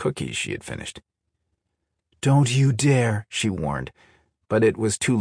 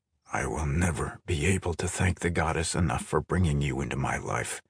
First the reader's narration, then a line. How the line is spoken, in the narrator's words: Creon murmured